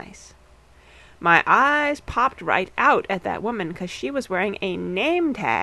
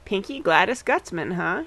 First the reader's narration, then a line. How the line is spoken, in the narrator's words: she said